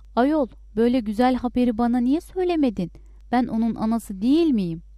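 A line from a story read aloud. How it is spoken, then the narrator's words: Shouting. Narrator (Turkish): diye bağırdı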